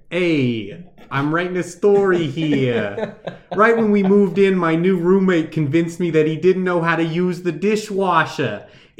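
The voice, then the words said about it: Attempted New York accent. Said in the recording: “You have to do it with an accent now. It's from New York. ... I don't really know how to do the New York accent.”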